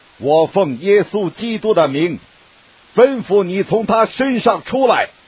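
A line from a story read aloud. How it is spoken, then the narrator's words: Annoyed, commanding. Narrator (Chinese): 保罗就心中厌烦，转身对那鬼说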